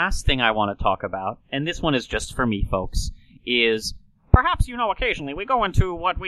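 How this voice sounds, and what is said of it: Usual voice. Nothing is said of it.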